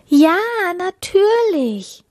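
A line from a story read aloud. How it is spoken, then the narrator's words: Joyful call. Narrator (German): rief die Prinzessin froh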